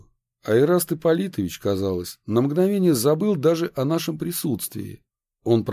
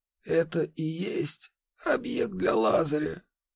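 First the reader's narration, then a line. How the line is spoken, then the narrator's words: Quiet question. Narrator (Russian): тихо спросил он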